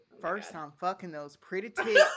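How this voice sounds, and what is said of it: Put-on country accent. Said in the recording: “You have to say it in like a country accent.”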